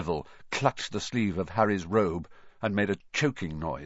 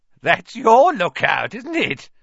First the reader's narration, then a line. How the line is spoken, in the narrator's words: said Filch, his voice cracking with glee